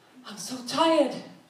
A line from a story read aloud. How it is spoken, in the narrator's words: she gasped